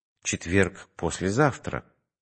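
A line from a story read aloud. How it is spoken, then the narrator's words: Slightly surprised objection. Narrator (Russian): возразил я немного удивленным тоном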